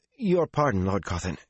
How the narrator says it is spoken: she said anxiously

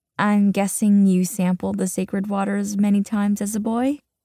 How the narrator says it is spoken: He laughs, in mock affront

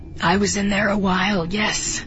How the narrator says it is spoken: she agrees, and they can both hear the rasp in her throat

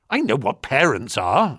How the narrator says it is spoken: I snapped

